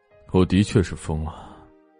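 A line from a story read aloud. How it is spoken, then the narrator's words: Calm, faint smile. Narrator (Chinese): 莫千行淡淡勾唇说道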